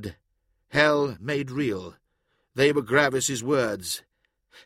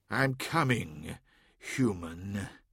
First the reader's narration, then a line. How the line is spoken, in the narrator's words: he muttered